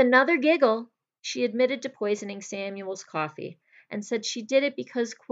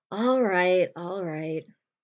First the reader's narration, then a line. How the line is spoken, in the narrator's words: she sighed and said